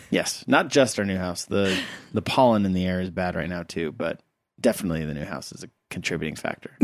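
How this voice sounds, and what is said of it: Sniffly, congested voice. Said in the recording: “You have very bad allergies right now... You can probably hear it in my voice... you're kind of sniffly”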